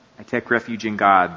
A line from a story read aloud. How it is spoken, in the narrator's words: their mother mumbled